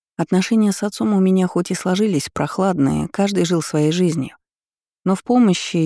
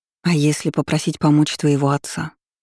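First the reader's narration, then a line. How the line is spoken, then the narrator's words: Quiet question. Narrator (Russian): тихо спросила подруга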